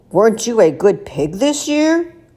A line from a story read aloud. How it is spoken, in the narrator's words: grunted Mr